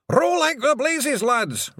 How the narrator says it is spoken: Rob Anybody yelled

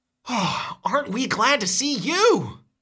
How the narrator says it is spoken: You blurt out

